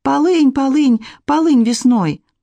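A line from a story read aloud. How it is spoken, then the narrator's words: Shouting after a deep breath. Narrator (Russian): поглубже вдохнула и закричала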